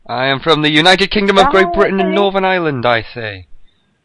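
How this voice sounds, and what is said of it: Genuine English accent. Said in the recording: “His accent is not fake at all. ... He's legitimately an Englishman.”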